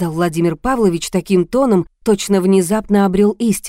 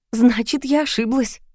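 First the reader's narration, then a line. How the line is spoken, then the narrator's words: Giggling. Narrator (Russian): хихикнула я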